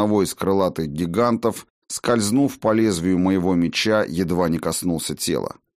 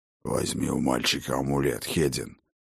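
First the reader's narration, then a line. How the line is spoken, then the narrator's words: Hoarse old man. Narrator (Russian): прохрипел старый Хрофт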